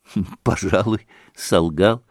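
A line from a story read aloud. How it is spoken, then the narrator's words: Laughing. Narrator (Russian): смеялся и Алеша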